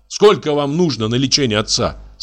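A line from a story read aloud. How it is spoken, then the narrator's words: Shouted. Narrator (Russian): закричал я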